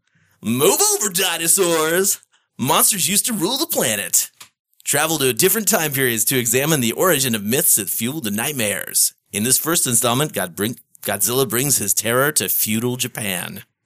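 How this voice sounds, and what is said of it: Comedic put-on reading voice. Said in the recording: “in a comedic voice”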